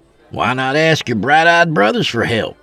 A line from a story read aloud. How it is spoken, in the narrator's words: Fenuel scoffed